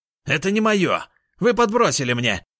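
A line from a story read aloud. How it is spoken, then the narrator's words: Shout. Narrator (Russian): прокричал он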